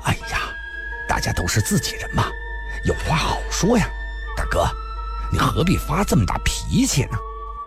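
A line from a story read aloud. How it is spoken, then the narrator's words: Placating, ingratiating smile. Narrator (Chinese): 龙啸云陪笑着说道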